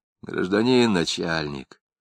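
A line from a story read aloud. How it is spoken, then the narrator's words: Hoarse nervous voice. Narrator (Russian): сиплым от волнения голосом сказал Жмакин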